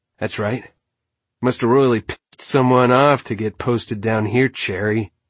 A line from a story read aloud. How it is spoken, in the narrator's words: she chuckled